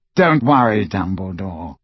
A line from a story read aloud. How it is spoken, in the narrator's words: he said coolly